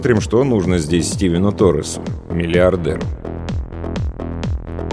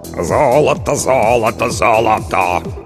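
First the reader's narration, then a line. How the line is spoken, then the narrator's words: Hoarse bass singing. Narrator (Russian): хриплым басом пропел Толик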